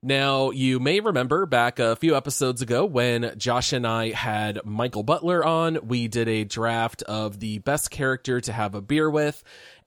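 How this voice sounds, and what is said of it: Congested, under-the-weather voice. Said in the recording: “I am a little bit under the weather here, so my voice might sound a little bit congested”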